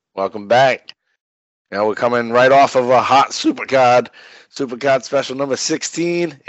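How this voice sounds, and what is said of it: Voice cracking, strained. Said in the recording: “my voice is already cracking... It's a fucking allergy”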